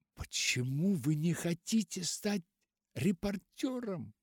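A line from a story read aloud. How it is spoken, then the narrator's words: Exclaimed. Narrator (Russian): воскликнула Руфь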